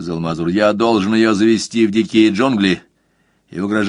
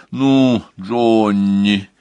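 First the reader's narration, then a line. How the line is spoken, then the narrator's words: Reproachful drawl. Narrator (Russian): укоризненно протянула Донна Роза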